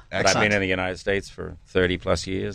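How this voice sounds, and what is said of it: New Zealand accent. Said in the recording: “you have a different accent ... originally I'm from New Zealand”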